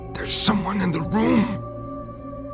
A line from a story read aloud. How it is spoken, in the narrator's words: whispered hysterically